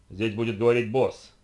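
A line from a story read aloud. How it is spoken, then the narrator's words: Growling. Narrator (Russian): прорычал Луис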